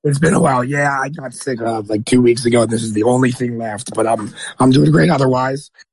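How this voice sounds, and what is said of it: Hoarse, worn-out voice. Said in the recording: “You sound a little hoarse... my voice sounds quite thrashed”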